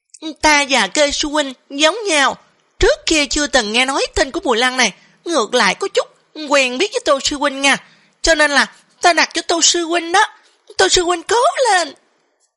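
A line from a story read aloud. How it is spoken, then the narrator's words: Smiling, friendly. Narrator (Vietnamese): Lưng Hồi Tháp Sầm Thước mỉm cười nói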